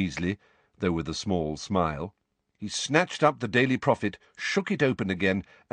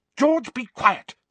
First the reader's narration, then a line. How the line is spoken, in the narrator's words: snapped Mrs